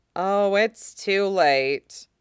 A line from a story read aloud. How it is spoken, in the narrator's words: Jiang Cheng grumbled